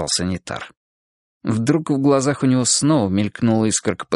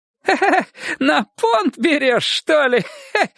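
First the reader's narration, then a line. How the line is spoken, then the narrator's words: Laughing loudly. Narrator (Russian): расхохотался он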